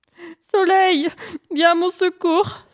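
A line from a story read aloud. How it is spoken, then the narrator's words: Pleading hare. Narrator (French): supplia le lièvre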